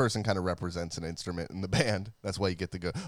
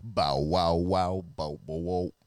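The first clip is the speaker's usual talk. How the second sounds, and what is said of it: Attempted low bass vocal. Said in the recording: “My voice is not quite low enough.”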